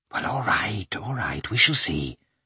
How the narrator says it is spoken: Kitty whispered

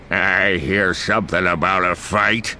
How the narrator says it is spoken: the Gran growls

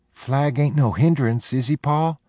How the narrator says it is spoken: Jody asked anxiously

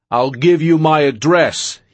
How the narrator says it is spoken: he yelled back

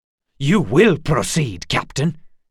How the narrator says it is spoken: snapped Geralt

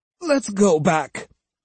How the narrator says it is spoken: said Osugi, her voice both disappointed and resigned

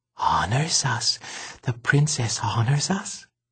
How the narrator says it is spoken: he thought he heard Temp, or maybe it was Tick, whispering

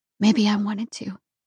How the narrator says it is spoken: I whispered

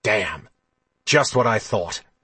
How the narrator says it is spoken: he said, his voice harsh in the quiet of the Jadwin hallway

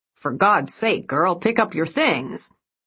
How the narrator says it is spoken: he snapped

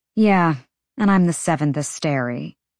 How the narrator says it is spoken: Bryce said dryly

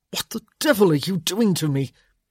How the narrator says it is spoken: he sputtered

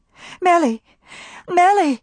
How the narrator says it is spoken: cried Maybelle, joy in her voice

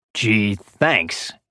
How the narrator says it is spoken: he said sarcastically

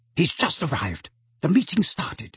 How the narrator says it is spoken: whispered urgently

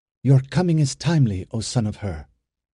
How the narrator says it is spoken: she said in a voice sharply distinct

